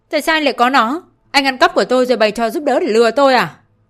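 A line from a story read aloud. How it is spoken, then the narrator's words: Stunned, then furious shout. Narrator (Vietnamese): ngẩn người mất mấy giây rồi tức giận hét lên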